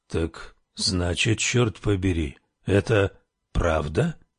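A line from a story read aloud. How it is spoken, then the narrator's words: Mutter. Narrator (Russian): пробормотал он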